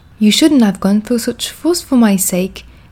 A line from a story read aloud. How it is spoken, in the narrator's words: Miss Wright exclaimed